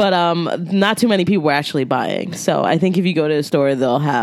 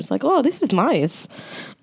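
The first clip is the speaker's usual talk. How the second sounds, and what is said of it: Put-on German accent. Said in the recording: “I think that's my German accent.”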